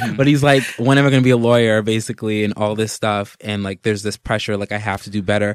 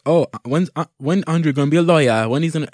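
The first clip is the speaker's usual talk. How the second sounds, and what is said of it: Poorly done imitated accent. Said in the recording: “my accent's terrible”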